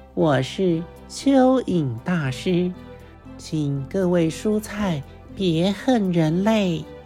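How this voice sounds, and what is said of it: Thin, small earthworm character voice. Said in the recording (Chinese): “像是蚯蚓发出的细小声音”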